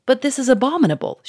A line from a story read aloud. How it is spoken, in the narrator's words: she cried